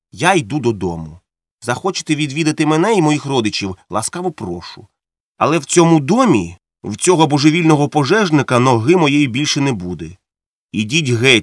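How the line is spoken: Calm. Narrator (Ukrainian): спокійно сказав Монтих

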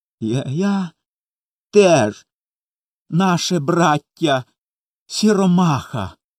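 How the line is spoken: Sobbing. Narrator (Ukrainian): схлипуючи, промовив Коля

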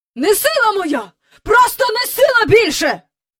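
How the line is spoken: Angry shouting. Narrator (Ukrainian): кричав містер Бенкс, сердито

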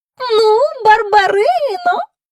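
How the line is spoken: Tender, flattering voice. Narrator (Ukrainian): мовив він до неї отим своїм ніжним, улесливим голосом

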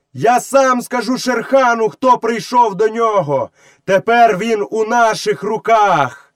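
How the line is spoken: Shout through cupped hand. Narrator (Ukrainian): Мауглі приклав руку до рота і крикнув у яр

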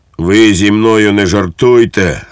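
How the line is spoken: Barking. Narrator (Ukrainian): гаркнув підпоручник Дуб

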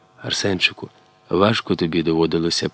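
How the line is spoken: Whisper. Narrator (Ukrainian): прошепотіла

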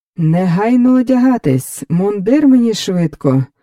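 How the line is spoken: Joyful calling out. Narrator (Ukrainian): радісно загукав Фелікс

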